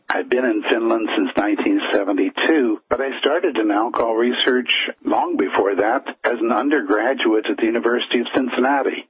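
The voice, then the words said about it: American English accent. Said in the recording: “as people probably can tell from the accent, I am an American originally”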